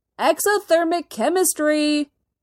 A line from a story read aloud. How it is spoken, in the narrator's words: Tony yells back